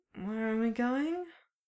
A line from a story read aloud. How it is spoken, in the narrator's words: Clint slurred